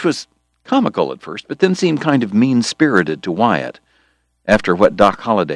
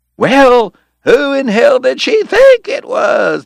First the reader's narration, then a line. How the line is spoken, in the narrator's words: the cowboys hollered